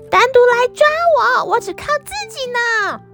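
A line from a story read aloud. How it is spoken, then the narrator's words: Loud shouting. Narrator (Chinese): 小水獭们大声喊叫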